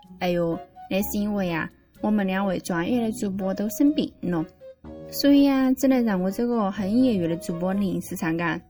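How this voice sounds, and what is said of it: Sichuanese dialect speech. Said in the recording (Chinese): “为啥子今天是用四川话呢？ ... 与其让我讲川普，我还是选一下用四川话来跟大家分享”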